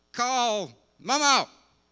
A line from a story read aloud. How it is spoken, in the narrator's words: yell at her phone